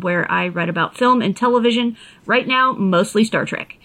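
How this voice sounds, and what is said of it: Gentle Appalachian accent. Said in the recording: “my gentle Appalachian lilt”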